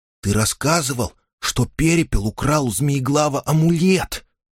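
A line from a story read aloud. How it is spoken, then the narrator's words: Child whispering. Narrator (Russian): прошептал малыш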